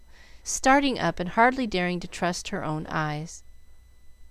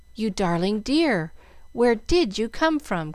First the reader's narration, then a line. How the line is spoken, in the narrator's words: cried Jill